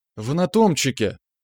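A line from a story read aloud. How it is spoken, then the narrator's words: Frightened. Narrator (Russian): испуганно округлила глаза Шевелева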